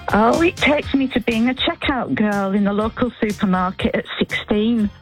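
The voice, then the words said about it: Northern English accent. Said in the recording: “you've held on to your accent, which is a lovely thing”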